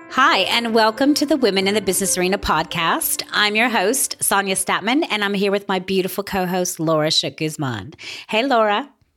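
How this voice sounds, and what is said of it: Voice slightly off from a cold. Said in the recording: “I have a little bit of a cold. So for all the listeners, my voice is a little off”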